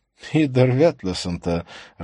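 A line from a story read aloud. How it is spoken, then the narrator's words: Laughing. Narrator (Russian): рассмеялся Матиус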